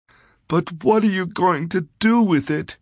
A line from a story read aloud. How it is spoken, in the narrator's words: she wailed